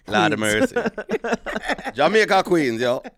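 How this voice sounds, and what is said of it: Convincing put-on Jamaican accent. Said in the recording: “That was a very spot on Jamaican accent.”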